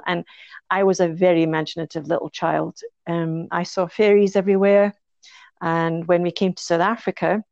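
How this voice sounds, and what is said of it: Mild Scottish accent. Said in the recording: “I've got a bit of a Scots accent.”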